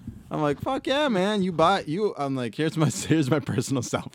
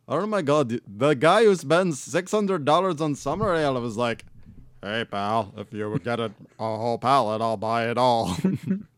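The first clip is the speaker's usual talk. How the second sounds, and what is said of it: Exaggerated comedic white-guy voice. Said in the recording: “All Dave Chappelle white impersonation”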